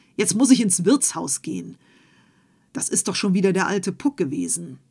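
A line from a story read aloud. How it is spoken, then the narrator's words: Farmer's call. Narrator (German): rief der Bauer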